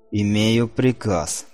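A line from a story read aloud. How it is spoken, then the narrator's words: Growled in foreign tongue. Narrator (Russian): прорычал он на языке Империи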